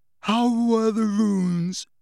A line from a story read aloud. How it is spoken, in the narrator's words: said Ron, yawning